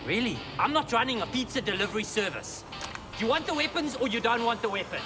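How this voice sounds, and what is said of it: Austrian accent. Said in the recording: “What the fuck is that accent? ... Oh, I think it's like Swiss or something. ... Austrian. ... Oh, that's right, Austrian.”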